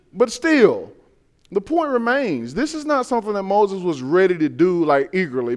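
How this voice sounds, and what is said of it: Southern US Georgia accent. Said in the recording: “the way I sound, that's kind of like having a Georgia accent”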